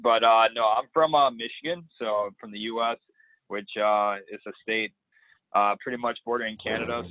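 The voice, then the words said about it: American accent with Australian inflection. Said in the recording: “my accent is very hard and American, I still have an Australian inflection at the end”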